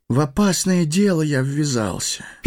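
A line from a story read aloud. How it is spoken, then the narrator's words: Sad sigh. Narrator (Russian): печально вздохнул Фродо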